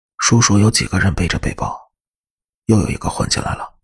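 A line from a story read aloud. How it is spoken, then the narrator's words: Low voice. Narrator (Chinese): 伊恩低声对我说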